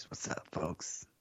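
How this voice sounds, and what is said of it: Put-on podcaster voice. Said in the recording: “putting on my podcasting voice. ... Not too much energy?”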